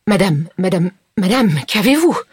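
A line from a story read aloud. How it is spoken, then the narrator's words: Stammered. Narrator (French): Elle balbutia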